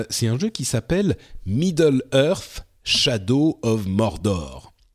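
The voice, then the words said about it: Deliberately exaggerated English accent. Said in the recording (French): “ce magnifique accent que j'ai fait euh, euh, volontairement exagéré.”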